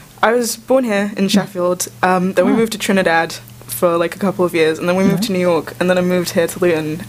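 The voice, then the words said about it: Mixed, hard-to-place accent. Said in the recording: “where's your accent from? ... jumbled up. ... I couldn't pinpoint exactly where you were from”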